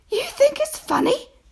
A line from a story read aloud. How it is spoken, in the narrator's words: cried